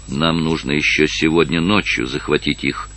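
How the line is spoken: Quiet. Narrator (Russian): тихо сказал Нарваес своему адъютанту

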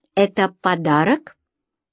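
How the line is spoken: Hesitant, slow, reluctant. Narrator (Russian): Антонио немного замялся с ответом, а потом все же медленно, словно нехотя, разжал губы

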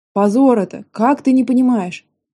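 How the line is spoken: Disappointed deep troll voice. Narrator (Russian): разочарованно пробасил тролль

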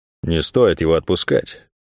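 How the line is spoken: Advising. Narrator (Russian): посоветовал он ей

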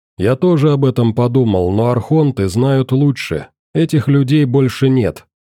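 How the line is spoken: Plain. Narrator (Russian): так они сказали

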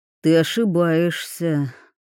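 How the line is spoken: Sighing. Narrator (Russian): вздохнул Щепкин

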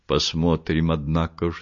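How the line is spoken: Plain. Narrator (Russian): сказал Вулич

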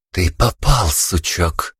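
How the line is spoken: Hissed into ear. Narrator (Russian): прошипела мне на ухо Вика

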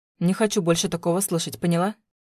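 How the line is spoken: Irritated question. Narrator (Russian): спросила раздраженно

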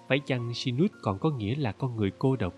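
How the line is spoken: Gentle thoughtful question. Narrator (Vietnamese): Thiếu nữ nhíu mày như suy nghĩ rồi nhẹ nhàng hỏi

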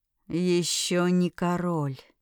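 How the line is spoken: Hoarse bass. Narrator (Russian): раздался его хриплый бас

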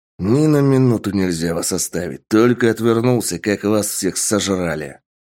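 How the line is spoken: Growling man. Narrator (Russian): Прорычал мужчина

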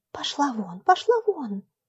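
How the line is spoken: Girl whispering. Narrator (Russian): зашептала девочка

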